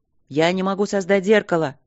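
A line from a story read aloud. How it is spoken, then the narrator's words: Shout. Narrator (Russian): крикнул второй маг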